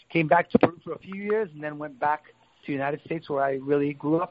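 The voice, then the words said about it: American accent. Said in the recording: “But that's why you have an American accent. ... Yeah, that's why I have an American accent.”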